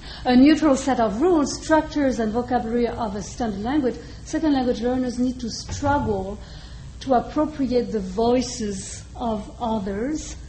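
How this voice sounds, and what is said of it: Non-native accented English. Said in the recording (French): “sorry for my English accent, my bad English accent”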